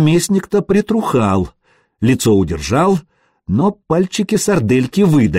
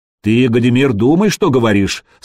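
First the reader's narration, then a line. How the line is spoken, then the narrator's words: Stern. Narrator (Russian): строго произнес Рерих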